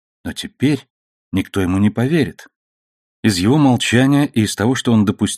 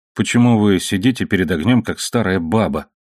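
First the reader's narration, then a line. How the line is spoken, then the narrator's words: Irritated grumble. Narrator (Russian): проворчал он, давая выход поднимавшемуся в нем раздражению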